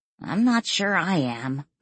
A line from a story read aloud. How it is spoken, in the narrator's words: Lily grumbled